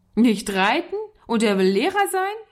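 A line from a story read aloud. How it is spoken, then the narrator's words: Boy calling out laughing. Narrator (German): rief der Junge lachend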